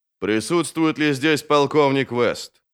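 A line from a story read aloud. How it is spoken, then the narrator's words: Booming low voice. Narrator (Russian): спросил гулким низким голосом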